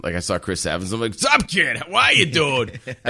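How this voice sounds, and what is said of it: Boston accent. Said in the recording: “I would talk in my mass hall accent ... Everybody goes right into the Boston accent.”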